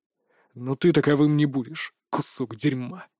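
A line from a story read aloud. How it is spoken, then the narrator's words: Growl. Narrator (Russian): прорычал знакомый голос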